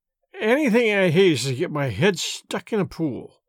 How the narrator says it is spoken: mumbled Miss Baedeker

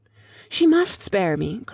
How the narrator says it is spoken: cried Lucy, in growing excitement

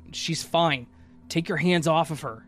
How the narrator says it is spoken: The guy immediately got defensive, … yelling

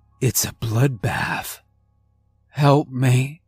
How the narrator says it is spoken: croaked out

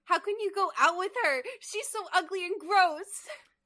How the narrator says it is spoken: yelled

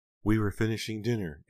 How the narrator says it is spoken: Aunt Belle said, still sobbing

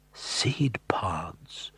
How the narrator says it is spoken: Jack said softly, his voice astonished

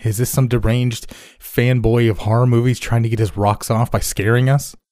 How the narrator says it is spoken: Evan shouted

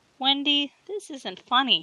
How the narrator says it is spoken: he whined

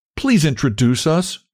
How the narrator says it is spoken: she cried

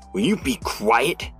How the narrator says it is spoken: He snarled

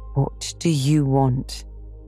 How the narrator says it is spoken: she said stiffly

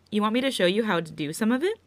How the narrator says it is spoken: he asks

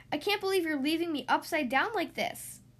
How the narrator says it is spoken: cried Thistle

